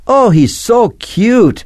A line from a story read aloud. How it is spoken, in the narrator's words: exclaimed Natasha